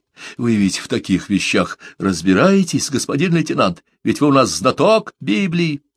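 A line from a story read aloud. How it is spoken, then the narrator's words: Meaningful whisper. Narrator (Russian): многозначительно шепнул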